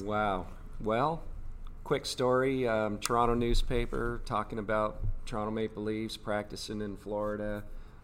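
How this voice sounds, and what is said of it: Canadian accent. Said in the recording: “I think our listeners will hear your Canadian accent.”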